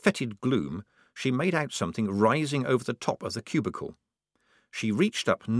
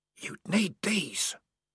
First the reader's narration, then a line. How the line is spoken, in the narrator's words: whispered the voice